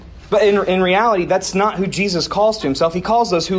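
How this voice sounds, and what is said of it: Usual voice. Nothing is said of it.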